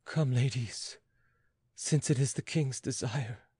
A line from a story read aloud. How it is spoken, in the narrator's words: Uttering a sigh, the queen said to her ladies